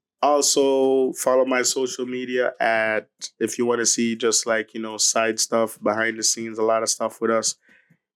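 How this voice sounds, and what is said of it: Sick-sounding voice. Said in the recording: “Sorry for my voice. I'm sick”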